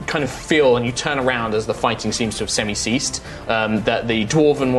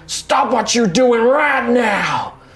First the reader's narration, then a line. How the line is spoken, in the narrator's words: just starts bellowing at the crowd